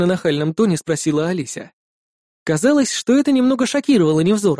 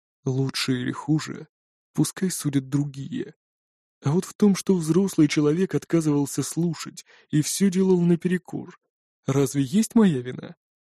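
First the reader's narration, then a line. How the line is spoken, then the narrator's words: Quiet, heavy sigh. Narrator (Russian): тяжко выдохнул и тихо произнес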